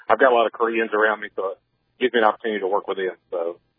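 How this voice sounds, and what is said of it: Southern Alabama accent. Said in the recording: “I'm from Alabama. You can tell my accent.”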